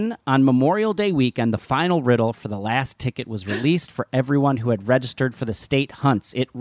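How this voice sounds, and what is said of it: Usual voice. Nothing is said of it.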